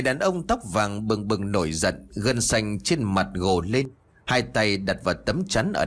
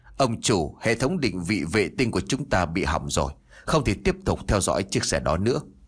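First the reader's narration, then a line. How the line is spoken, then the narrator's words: Stammering in broken English. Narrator (Vietnamese): một tên che mặt chật vật, dùng thứ tiếng Anh không lưu loát lắp bà lắp bắp nói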